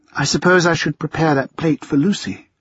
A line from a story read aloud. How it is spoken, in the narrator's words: she said with the tiniest of sighs